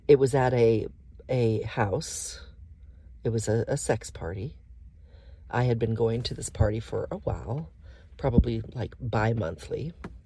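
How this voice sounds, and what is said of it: Shaky, unsteady voice. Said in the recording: “my voice is still just so shaky”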